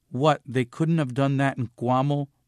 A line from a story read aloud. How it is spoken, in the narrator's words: mom asked crossly